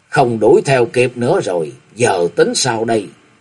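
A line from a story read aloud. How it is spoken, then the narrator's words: Sighing, low voice. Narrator (Vietnamese): lão nhân thấp bé khẽ buông tiếng thở dài thấp giọng nói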